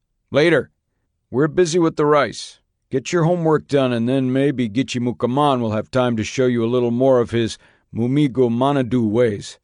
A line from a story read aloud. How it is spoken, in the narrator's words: barked back